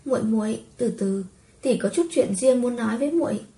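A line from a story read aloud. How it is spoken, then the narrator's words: Sweet, gentle. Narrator (Vietnamese): ả tươi cười dịu dàng, ôn nhu nói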